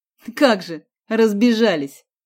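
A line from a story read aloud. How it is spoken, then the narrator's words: Snorted. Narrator (Russian): фыркнул Борис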